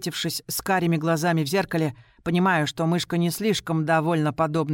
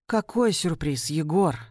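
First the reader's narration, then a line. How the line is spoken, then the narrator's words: Tired sigh. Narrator (Russian): вздыхает она устало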